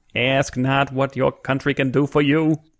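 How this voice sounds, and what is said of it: JFK impression. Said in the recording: “How do you like my JFK? ... Has that improved your Kennedy impression?”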